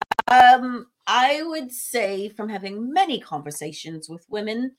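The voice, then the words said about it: Sudden put-on British accent. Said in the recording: “I don't know why I turned into a British accent ... Every once in a while, I'll flip it to a British accent for no reason.”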